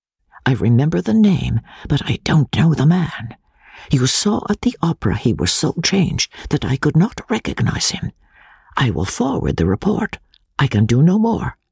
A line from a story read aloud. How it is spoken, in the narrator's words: Pesca's voice saying, eagerly, in low tones and in his own language